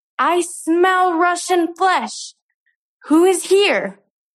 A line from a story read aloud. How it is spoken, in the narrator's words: screamed